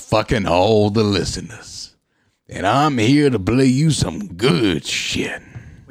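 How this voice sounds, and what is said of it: Deep radio DJ voice. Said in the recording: “deep voice”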